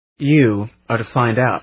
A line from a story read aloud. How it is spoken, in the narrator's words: said